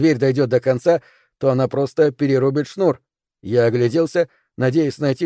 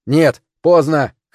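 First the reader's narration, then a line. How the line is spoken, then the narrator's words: Shout. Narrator (Russian): крикнул я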